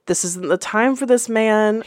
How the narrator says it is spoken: he muttered

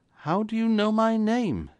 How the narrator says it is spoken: he gasped

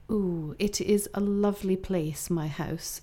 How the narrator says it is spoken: said the Queen

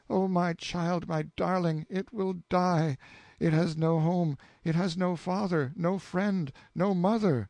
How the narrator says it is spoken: she cried out

